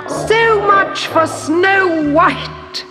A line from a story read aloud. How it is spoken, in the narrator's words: she cried